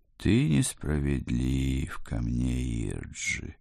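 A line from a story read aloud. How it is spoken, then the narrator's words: Sad sigh. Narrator (Russian): печально вздохнула она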